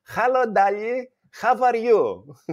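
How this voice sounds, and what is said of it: Greek-English mixed accent. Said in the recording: “We call it Gringlish, Greek and English mixed together.”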